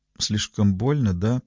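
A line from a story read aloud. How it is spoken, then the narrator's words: Quiet. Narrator (Russian): произнесла она тихо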